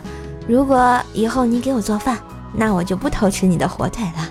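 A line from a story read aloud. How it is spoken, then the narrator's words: Joking. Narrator (Chinese): 我开玩笑的说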